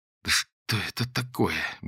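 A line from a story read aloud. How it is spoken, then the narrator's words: Mutter. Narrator (Russian): бормотала Лера, остервенела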